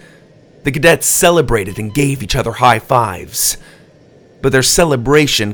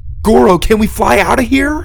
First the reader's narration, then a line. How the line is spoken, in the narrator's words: Doug asked desperately